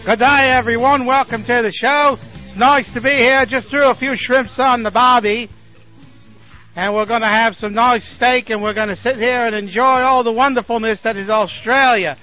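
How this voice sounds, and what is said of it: Deliberately bad fake Australian accent. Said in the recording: “I do a very bad Australian accent.”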